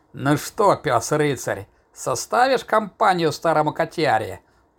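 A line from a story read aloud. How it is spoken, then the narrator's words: Cheerful growl. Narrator (Russian): прорычал весело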